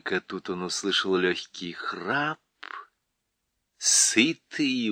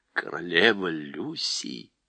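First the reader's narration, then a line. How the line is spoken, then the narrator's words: Whispered. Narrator (Russian): прошептал Дафу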